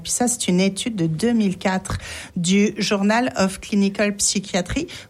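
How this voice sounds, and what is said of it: French-accented English pronunciation. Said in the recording (French): “Vous apprécierez mon accent anglais, évidemment”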